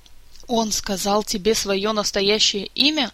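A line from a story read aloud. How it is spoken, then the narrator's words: Angry exclamation. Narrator (Russian): гневно воскликнула Марга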